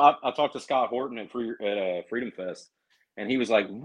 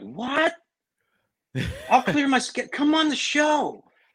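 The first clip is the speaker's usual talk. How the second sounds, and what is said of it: Imitates another person's voice. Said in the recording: “a good Scott Horton impression.”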